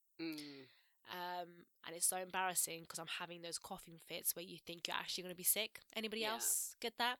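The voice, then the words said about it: Croaky, hoarse voice. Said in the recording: “I lost my voice last week. ... you can still tell from the sound of my voice, I'm still a bit croaky.”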